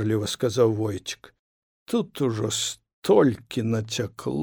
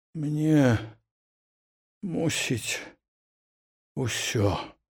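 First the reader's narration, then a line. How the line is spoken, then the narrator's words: Groaning. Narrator (Belarusian): прастагнаў Бураў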